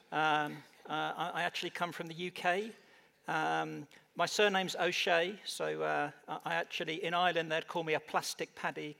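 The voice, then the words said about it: British English accent. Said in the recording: “For those of you that can't tell from my accent, I'm not naturally American.”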